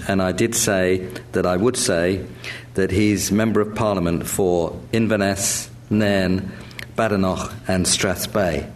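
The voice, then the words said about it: West London accent. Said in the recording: “that was in a West London accent, which is where I grew up”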